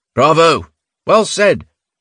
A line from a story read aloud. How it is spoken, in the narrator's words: called out from his log pile